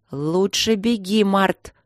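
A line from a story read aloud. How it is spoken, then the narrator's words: Through clenched teeth. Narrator (Russian): сказала она сквозь зубы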